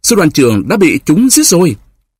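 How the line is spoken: Crying out while riding. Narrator (Vietnamese): Demidov phi ngựa phun vút, kêu lên

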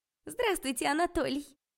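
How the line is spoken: Unpleasant high voice. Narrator (Russian): противным высоким голосом сказала я

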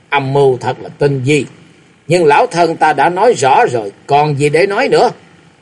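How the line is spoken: Old woman's cold laugh. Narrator (Vietnamese): La Sát Bà Bà cười nhạt nói

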